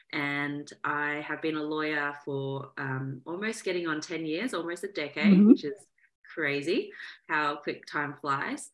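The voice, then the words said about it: Australian accent. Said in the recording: “You can probably hear my accent as well. I am from Australia, so born and raised in Melbourne, Australia”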